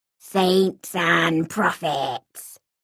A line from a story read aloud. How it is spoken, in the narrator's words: she said in reply, her voice now a hoarse but confidential whisper